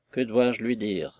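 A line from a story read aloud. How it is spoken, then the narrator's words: Low voice. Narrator (French): reprit Stephen à voix basse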